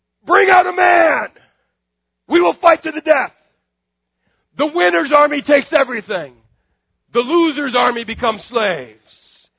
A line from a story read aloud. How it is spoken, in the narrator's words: Goliath yells